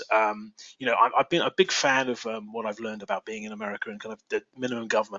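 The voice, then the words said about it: English accent. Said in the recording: “you've heard my English accent.”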